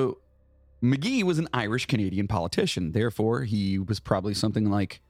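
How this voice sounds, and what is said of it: Usual voice. Nothing is said of it.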